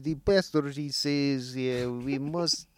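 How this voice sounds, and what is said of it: Put-on Russian accent. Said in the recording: “I do love doing a Russian accent, but it's pretty silly.”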